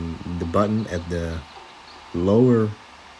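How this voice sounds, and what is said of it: Usual voice. Nothing is said of it.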